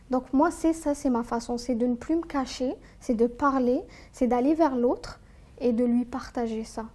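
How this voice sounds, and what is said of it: Speaks French with a non-local accent. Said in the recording (French): “vu mon accent, quand je parle, on, réalise que je suis pas là”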